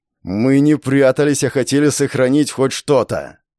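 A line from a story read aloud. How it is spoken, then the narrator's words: Near growl. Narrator (Russian): почти прорычал Вячеслав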